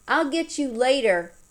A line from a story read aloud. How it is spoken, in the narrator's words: hollered over one shoulder